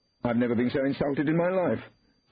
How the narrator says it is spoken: said Kenny, now speaking at the top of his voice

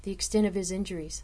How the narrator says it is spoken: I asked

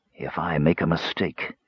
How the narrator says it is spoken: said to himself coolly

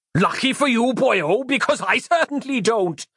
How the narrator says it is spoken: he roared again, even louder

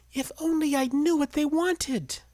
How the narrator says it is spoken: she sighed

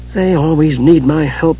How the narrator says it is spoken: Tasselhoff muttered

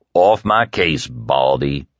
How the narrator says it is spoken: Stu growled

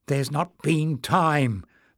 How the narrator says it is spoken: the goblin said nervously

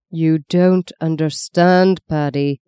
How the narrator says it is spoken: the lawyer said in a slow, distinct voice, as if he were explaining to a child

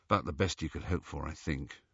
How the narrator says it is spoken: murmured Harry

